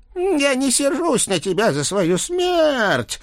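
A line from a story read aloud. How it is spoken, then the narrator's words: Sepulchral female voice. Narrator (Russian): могильным голосом продолжала женщина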